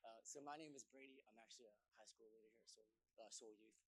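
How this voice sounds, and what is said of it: Hoarse, partly lost voice. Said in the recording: “my voice is a little bit gone too”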